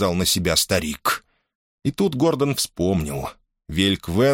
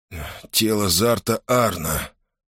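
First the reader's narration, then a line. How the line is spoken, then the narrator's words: Hoarse. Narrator (Russian): хрипло проговорил Гордон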